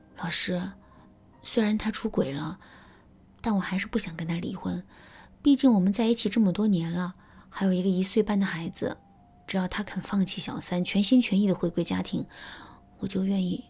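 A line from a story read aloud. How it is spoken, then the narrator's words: Soft voice. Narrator (Chinese): 小敏小声对我说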